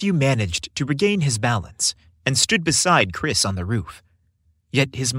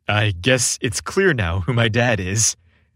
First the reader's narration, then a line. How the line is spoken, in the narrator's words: Chris said, his laughter filling the night air